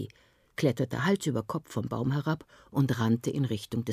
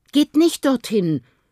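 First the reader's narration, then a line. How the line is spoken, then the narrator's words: Mother calling after them. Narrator (German): rief die Mutter Aki und Chris hinterher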